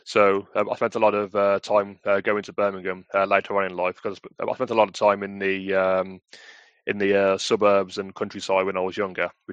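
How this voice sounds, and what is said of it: West Midlands English accent. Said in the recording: “as you can tell from my accent, I grew up in the West Midlands”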